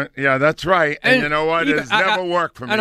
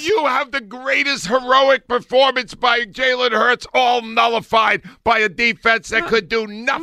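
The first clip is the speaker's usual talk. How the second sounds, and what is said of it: Yelling, raised loud voice. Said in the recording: “Why are you yelling? ... When my volume goes up, I'm losing.”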